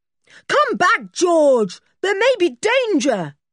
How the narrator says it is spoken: shouted Julian

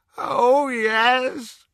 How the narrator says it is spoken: moaned Kreacher

